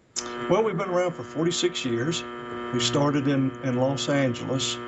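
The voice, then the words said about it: Tennessee Southern US accent. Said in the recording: “Great accent, by the way. Where are you from? ... I'm in Chattanooga, Tennessee”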